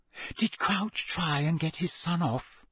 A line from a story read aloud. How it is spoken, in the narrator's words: Hermione whispered